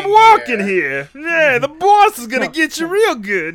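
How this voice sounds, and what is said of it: Put-on Brooklyn accent. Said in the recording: “weird like Brooklyn accent. I don't know if I can do that voice.”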